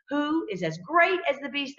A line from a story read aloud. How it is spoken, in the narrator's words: they exclaimed